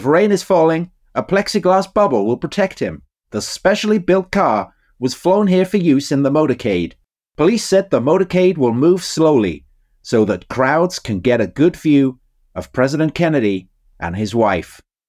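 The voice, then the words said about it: Cheery 1960s American newscaster accent. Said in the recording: “Never has it been read in such a remarkable accent ... There was a definite hint of Wiltshire there, I think, as much as of Dallas ... I was trying to kind of multi-purpose, cheery 1960s US newscaster”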